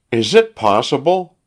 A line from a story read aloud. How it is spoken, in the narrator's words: cried the wife